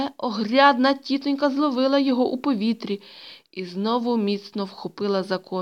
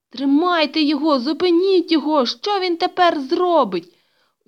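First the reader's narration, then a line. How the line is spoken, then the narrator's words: Desperate shout. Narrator (Ukrainian): У відчаї закричав Петрик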